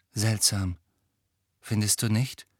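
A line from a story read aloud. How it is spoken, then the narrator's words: Quiet voice. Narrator (German): sagte Joe mit leiser Stimme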